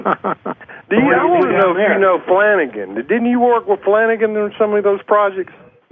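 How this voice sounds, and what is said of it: Southern US Alabama accent. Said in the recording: “You sound like you're from the South... You got an Alabama accent... Chattahoochee River accent”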